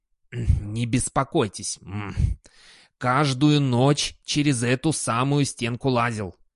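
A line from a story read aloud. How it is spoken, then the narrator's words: Offended toothless mumble. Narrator (Russian): обиженно прошамкал Сдумс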